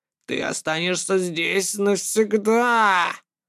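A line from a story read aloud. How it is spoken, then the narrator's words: Nasty drawling inner voice. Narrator (Russian): противный голосок в голове протянул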